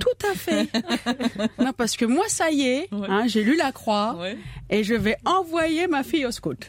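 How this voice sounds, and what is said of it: Put-on posh bourgeois French accent. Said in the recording (French): “Surtout cet accent de ... bourge. Oui, parce que je suis devenue Marie-Chantal.”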